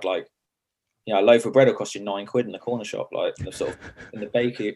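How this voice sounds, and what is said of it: Strong Sussex English accent. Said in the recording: “Got a strong Sussex accent.”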